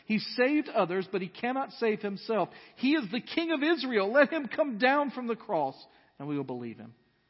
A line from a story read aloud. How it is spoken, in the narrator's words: the chief priests with the scribes and elders mocked Him and said